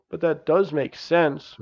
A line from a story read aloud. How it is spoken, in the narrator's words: mumbled Janice